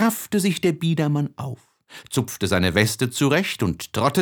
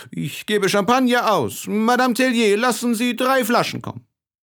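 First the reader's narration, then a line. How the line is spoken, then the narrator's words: Calling out. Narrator (German): Monsieur Philippe rief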